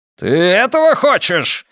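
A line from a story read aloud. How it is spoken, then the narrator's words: Roaring. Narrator (Russian): взревел полковник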